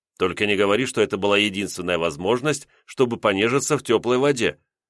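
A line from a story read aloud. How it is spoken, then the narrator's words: Wry snort. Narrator (Russian): хмыкнул я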